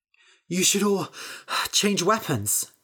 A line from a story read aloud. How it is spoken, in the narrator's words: Bethany said, panting